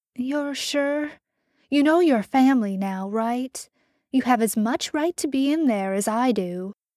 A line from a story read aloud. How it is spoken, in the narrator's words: Karen said kindly